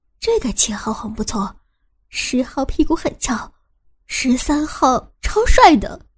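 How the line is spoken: Happy murmuring. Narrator (Chinese): 伟山正开心的 喃喃的念着

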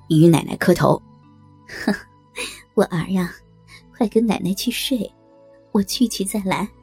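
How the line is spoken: Cheerful, smiling. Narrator (Chinese): 小和尚笑嘻嘻说道

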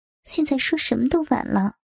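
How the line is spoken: Sighing. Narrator (Chinese): 小月叹了口气

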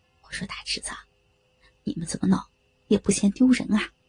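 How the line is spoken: Quiet voice. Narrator (Chinese): 老李支书小声的说道

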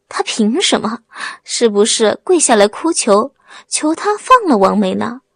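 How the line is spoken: Sarcastic question. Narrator (Chinese): 高个子讽刺的问

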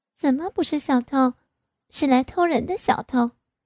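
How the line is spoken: Smiling. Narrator (Chinese): 我微笑的对他说

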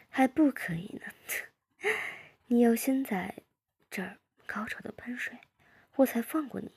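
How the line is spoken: Laughing. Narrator (Chinese): 我笑着说

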